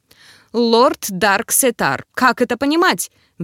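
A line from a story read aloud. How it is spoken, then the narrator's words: Roaring rector. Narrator (Russian): взревел ректор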